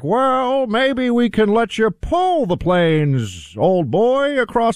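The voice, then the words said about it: Impression of FDR. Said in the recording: “It's not a bad FDR impression ... I think everybody's going to believe it's a dead ringer.”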